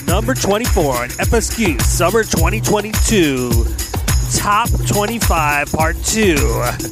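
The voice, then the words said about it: Casey Kasem radio announcer impression. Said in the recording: “In my Casey Kasem voice. ... Casey Kasem is an American chart announcer, radio host”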